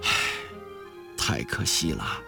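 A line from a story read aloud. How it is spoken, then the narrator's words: Long sigh. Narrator (Chinese): 长叹一声说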